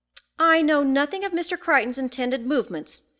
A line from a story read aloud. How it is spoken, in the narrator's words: she said in her haughtiest tone